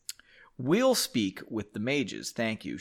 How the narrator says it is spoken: she said

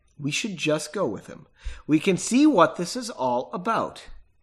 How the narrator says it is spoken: said calmly

